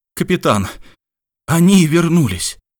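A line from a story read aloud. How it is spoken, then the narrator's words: Exclaiming. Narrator (Russian): воскликнул Мичман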